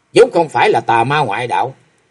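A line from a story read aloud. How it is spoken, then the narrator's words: Cold indifferent. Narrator (Vietnamese): Bích Liên Hoa dững dưng lạnh lùng nói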